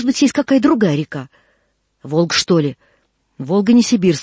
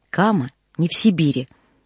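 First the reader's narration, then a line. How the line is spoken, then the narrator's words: Quiet. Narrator (Russian): сказал тихо Коля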